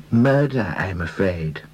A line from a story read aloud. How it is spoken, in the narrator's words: he said sadly